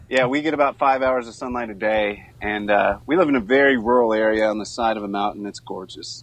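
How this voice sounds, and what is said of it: Bluegrass Southern US accent. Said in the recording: “You got a cool beegrass, accent. ... I think it's become stronger since living up here.”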